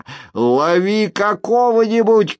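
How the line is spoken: Shouting. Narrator (Russian): крикнул Кагыр

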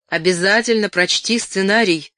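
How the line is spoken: Shouted farewell. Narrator (Russian): крикнул он на прощание

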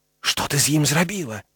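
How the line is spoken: Whisper. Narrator (Belarusian): прашаптаў Гары

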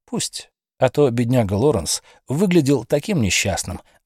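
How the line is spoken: Plain. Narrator (Russian): ответил Тернер

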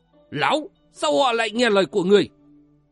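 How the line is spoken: Roaring. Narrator (Vietnamese): Quân trung thánh gầm lên

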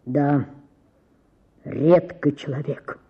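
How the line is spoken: Deep bass voice. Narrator (Russian): сказал кто-то басом в гостиной

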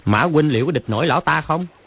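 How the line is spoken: Sneering. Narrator (Vietnamese): Tiêu Tân Tử cười khẩy nói

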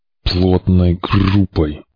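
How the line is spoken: Through gritted teeth. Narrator (Russian): сквозь зубы напомнил Потогеныч

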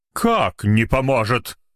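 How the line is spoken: Exclamation. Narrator (Russian): воскликнул он

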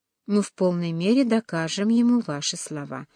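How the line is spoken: Plain. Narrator (Russian): сказал король

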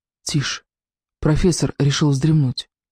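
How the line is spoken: Whisper. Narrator (Russian): Зев прошептал

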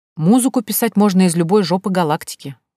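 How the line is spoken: Displeased grumbling. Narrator (Russian): недовольно пробурчал Ёж

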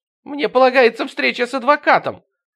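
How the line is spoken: Shrieking. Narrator (Russian): завизжала я

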